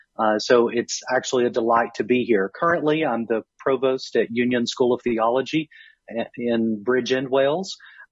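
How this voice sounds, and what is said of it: American Southern accent. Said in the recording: “I originally grew up in Kentucky, so a southern state, as you can hear from my accent. I'm losing just a little bit of that”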